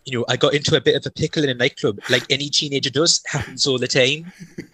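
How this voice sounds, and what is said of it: Imitates another person's accent. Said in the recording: “I'm going to apologies for the accent here”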